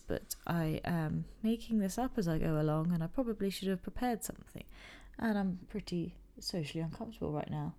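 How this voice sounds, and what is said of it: Weird slow voice. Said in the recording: “I don't usually talk in this weird slow voice”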